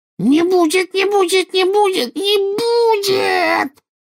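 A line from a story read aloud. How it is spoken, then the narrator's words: Voice rising to shriek. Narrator (Russian): Голос Кикимера поднялся до визга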